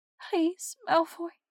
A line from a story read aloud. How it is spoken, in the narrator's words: she whimpers